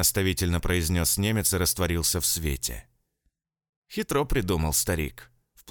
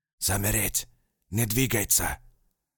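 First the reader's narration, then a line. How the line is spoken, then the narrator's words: Distinct close whisper. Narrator (Russian): Отчетливым шепотом проговорил рядом немец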